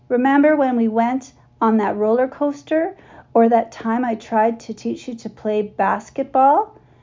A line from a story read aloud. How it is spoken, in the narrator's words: Mac shakes his head, chuckling